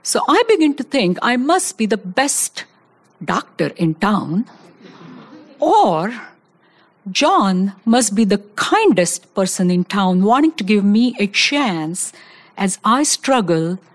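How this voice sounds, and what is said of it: Speaks English with an accent. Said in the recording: “I even have an accent.”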